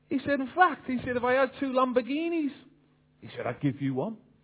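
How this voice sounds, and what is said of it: Liverpool accent. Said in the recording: “I'm from Liverpool ... I hope you can understand the accent.”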